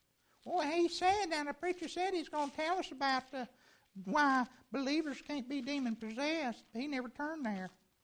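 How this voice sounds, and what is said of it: Imitates another person's voice. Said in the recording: “That was my impersonation of Lynn Sanders ... That sounded like me.”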